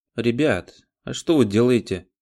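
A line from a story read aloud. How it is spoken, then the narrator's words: Plain. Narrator (Russian): спросила подошедшая Брю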